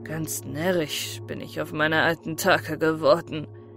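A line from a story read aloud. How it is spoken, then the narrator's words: Self-mocking laugh. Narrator (German): lachte Avdjevitsch sich selbst aus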